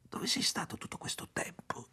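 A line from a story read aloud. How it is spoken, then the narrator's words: Whispering. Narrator (Italian): sussurrò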